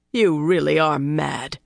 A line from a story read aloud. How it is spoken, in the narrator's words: he growled